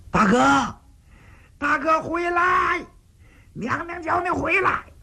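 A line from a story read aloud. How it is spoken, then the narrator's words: Anxious shouting. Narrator (Chinese): 殷红也知道闯祸了，站到宫门口就喊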